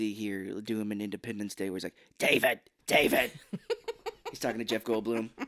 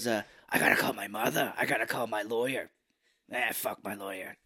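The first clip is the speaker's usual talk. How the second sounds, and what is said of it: Imitates another person's voice. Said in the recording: “Can you do his voice?”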